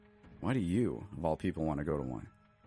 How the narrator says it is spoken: I sighed

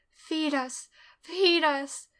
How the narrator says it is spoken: the voices came too, the screams, and then the whispers

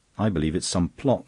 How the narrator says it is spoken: snapped Foloin

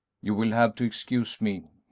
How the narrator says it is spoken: he said coldly

